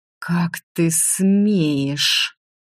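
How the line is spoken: Snake-like hissing. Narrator (Russian): уподобившись настоящей змеюке, прошипела Лана

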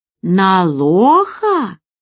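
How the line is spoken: Hearty laughter. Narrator (Russian): Нина расхохоталась от души

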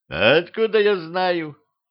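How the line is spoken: Sighing. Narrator (Russian): вздохнул младший

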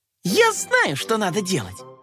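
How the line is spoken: Exclaiming little cat. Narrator (Russian): воскликнула кошечка

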